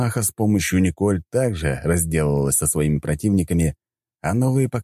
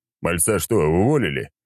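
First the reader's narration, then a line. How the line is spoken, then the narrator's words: Chuckling. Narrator (Russian): хохотнул я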